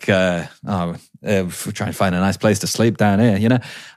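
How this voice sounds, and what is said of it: Put-on Australian accent. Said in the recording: “That was an Aussie accent”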